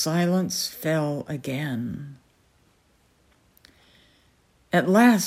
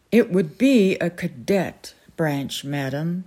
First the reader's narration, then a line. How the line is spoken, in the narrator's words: said Balin